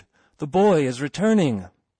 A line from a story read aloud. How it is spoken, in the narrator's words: cried a voice